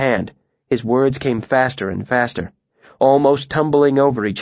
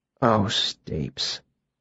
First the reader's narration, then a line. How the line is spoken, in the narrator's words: he said softly